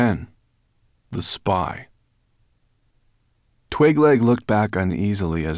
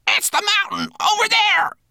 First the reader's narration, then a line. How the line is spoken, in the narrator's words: croaked the raven